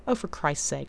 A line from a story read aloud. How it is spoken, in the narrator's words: Rodney snapped